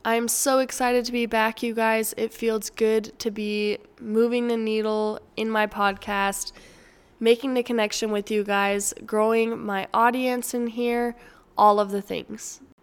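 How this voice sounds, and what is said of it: Dry, strained voice. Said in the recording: “my voice is getting drier and drier as this episode goes along ... Hopefully, my voice is completely 100% back by next week's episode”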